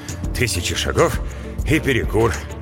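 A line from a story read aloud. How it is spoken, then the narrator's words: Muttered. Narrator (Russian): пробормотал Брэм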